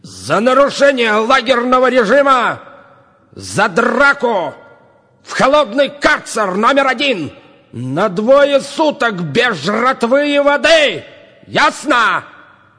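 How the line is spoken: Shouting. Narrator (Russian): Крикнул начальник

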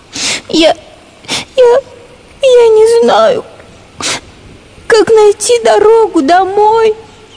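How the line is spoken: Tearful explanation. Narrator (Russian): сквозь слезы объяснила

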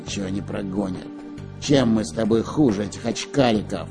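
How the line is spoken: Menacing pirate speech. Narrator (Russian): грозно сказал пират Буль-Буль

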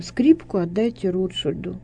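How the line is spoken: Barely audible. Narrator (Russian): А потом сказал, еле слышно

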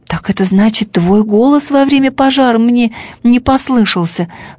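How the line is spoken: Exclaiming. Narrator (Russian): воскликнул Бим-бим

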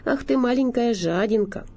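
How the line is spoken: Very affectionate. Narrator (Russian): даже совсем ласково

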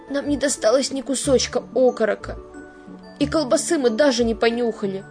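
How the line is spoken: Bitter sobbing. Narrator (Russian): горько всхлипывал он

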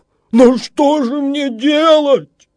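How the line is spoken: Exclaiming. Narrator (Russian): воскликнул я

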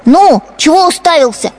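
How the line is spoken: Boy shouting. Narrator (Russian): кричал поросенку хозяйский сын

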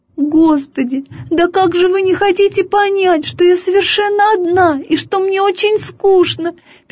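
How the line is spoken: Squeaky. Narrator (Russian): пищала она каждому

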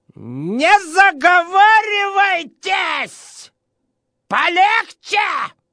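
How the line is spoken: Shrill, breaking shout. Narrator (Russian): сорвавшись на виск, крикнул

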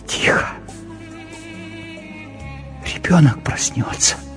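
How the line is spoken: Pleading whisper. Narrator (Russian): умоляющим голосом прошептала

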